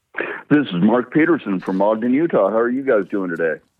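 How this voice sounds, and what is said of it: Sultry, smoky radio voice. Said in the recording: “radio voice, because it's coming across very very sultry and wonderful ... Smoky”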